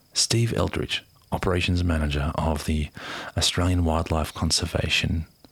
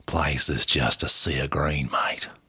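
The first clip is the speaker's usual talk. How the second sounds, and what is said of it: Put-on Australian accent. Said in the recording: “I'm going to try and do an Aussie accent. ... Yeah, that's pretty good.”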